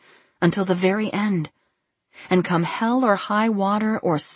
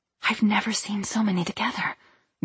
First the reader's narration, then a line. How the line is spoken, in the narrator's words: whispered Edith